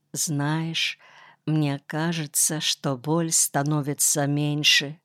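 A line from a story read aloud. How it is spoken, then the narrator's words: Barely audible whisper. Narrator (Russian): еле слышно прошептал он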